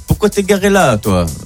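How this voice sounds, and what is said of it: Put-on Corsican French accent. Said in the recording (French): “je vais essayer de faire l'accent corse, et je sais vraiment pas le faire ... il le fait très bien”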